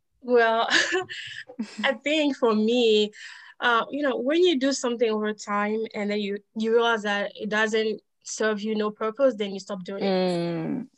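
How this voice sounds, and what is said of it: French-influenced accent, milder than before. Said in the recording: “my country, we speak French. And so my accent, I still have accent today, but I think it's less stronger than when I just came in the US”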